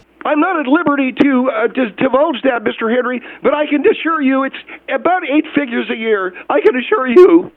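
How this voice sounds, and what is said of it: Nervous-sounding voice. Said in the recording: “you sound nervous?”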